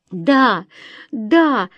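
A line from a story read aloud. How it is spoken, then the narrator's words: Joyful squeal. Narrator (Russian): радостно завизжала Лёка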